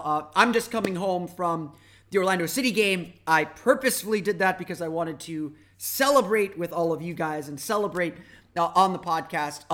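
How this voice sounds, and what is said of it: Hoarse, worn-out voice. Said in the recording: “Ooh, there goes my voice. ... my voice is a little bit shot right now.”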